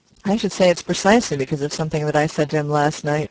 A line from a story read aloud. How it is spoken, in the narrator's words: replied Spargo